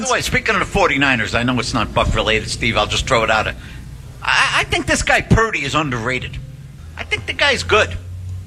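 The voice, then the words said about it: Nebraska accent, dulcet tone. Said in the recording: “That dulcet tone there with the Nebraska accent”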